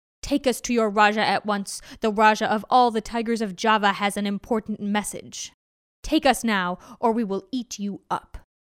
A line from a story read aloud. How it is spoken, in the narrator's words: they growled